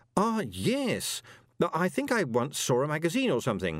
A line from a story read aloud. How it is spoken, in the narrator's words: said Moist desperately